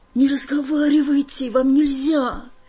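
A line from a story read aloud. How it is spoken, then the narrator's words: Frightened interruption. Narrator (Russian): испуганно прервала я его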